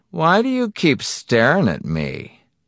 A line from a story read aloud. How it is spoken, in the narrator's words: he said evenly